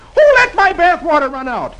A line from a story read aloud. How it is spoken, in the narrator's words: Dagwood yells